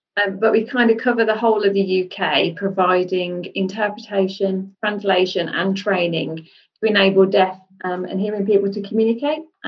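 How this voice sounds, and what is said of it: Birmingham English accent. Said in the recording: “We're based in Birmingham, as you can probably tell by the accent.”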